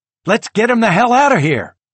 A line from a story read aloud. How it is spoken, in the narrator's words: The man barks